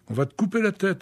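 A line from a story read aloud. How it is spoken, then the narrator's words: Shouting. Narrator (French): hurlait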